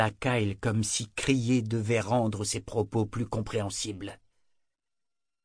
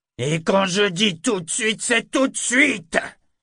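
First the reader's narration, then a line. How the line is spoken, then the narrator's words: Furious, triumphant barking. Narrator (French): aboya Kyle d'un ton où se mêlaient la fureur et le triomphe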